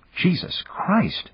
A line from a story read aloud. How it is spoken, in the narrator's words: Dan muttered